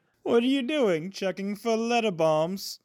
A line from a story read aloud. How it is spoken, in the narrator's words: He chuckled at his own joke